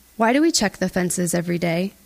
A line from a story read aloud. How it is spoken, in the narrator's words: His voice is calm, like he's asking me the question on an ordinary day